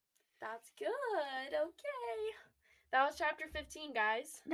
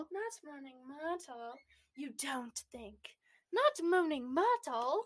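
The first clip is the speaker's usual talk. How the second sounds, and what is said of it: Put-on British accent. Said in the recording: “British accent time”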